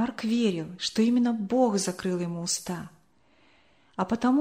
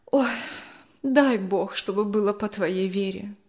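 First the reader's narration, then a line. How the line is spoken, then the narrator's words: Sigh. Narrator (Russian): вздохнула она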